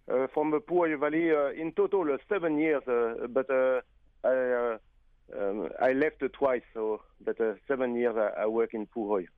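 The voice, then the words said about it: Speaks with a noticeable accent. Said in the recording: “I like a nice accent.”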